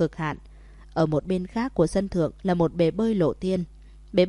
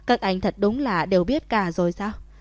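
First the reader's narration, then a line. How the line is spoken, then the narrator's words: Bursting laughter. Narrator (Vietnamese): Thẩm Thất liền bật cười thành tiếng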